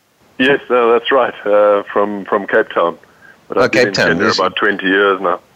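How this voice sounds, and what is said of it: Slight foreign accent. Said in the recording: “you still got a bit of an accent, dude.”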